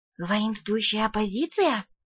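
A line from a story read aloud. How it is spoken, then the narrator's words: Whispered question. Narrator (Russian): шепотом спросила я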